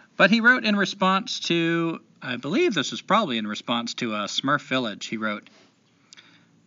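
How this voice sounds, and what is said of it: Usual voice. Nothing is said of it.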